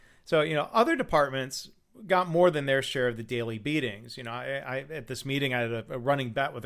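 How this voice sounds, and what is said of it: Usual voice. Nothing is said of it.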